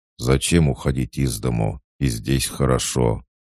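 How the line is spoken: Grumbling. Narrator (Russian): Он ответил ворчливым тоном

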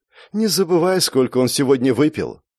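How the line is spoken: Tired reminder. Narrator (Russian): устало напомнила ей Лиссандра

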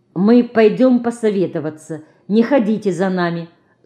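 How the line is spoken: Stern woman. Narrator (Russian): строго говорит она

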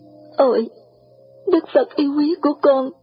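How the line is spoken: Choked with emotion. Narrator (Vietnamese): nghẹn ngào

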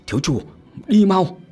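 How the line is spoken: Loud urgent shout. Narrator (Vietnamese): Nhật cuối cùng hét lớn

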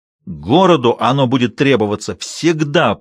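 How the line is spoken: Roar. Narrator (Russian): проревел

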